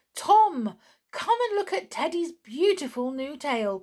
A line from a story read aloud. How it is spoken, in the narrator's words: cried the clown